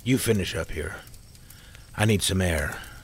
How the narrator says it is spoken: he said quietly

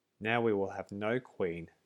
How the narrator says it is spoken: said the others

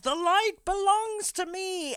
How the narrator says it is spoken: he screams

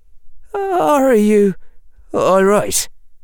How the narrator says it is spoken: said Seamus in a wavering voice

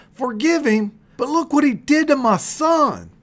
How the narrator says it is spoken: he shouted

